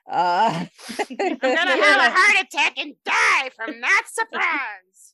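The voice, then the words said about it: Imitates another person's voice. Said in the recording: “my best Gilbert Gottfried impersonation”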